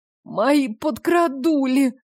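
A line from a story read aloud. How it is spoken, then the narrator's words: Groaning. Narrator (Russian): простонала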